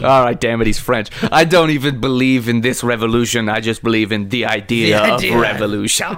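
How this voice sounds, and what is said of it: Put-on French accent. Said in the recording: “Maybe he's just French. Can he just be French? ... French is too easy. We do that accent.”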